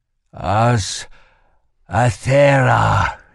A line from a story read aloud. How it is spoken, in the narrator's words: he moaned